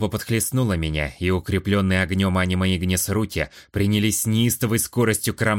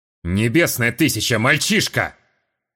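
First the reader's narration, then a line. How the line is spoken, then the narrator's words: Old priest barking. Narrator (Russian): рявкнул один из жрецов, выглядящий самым старшим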